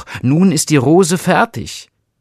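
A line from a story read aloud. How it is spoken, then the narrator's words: Rosebush calling out. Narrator (German): rief der Rosenstrauch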